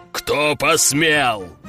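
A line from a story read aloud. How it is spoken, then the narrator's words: Booming deep male voice. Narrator (Russian): Мощный мужик пробасил так, что в окнах завибрировали стекла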